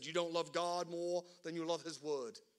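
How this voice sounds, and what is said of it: Poor put-on English accent. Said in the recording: “He was English. That was a horrible accent. Forgive me, all the Brits in the room.”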